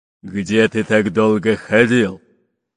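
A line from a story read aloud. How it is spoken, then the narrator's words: Displeased growl. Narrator (Russian): недовольно прорычал рыжебородый пират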